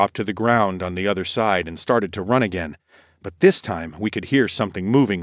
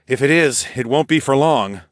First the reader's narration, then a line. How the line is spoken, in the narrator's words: I sighed